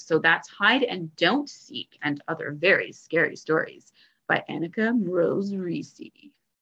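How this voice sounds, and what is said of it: Spooky scary storytelling voice. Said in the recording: “That was my scary voice. ... I'm terrified.”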